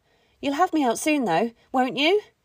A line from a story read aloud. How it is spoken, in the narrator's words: she pleaded